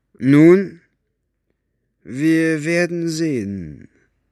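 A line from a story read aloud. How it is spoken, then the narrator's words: Slow speech. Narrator (German): sagte er langsam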